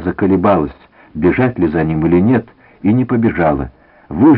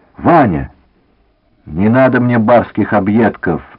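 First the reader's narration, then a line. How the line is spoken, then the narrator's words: Sharp. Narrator (Russian): сказал резко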